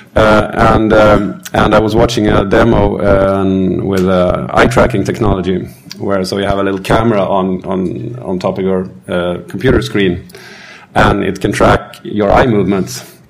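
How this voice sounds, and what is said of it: Slightly hoarse voice. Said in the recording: “That's why I'm a bit hoarse today.”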